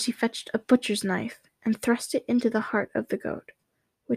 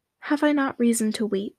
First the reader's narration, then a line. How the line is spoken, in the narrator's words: she answered